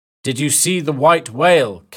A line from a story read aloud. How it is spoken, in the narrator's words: Captain Ahab shouted